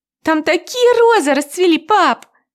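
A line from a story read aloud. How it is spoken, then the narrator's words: Loud and joyful. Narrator (Russian): громко и радостно произносит Аня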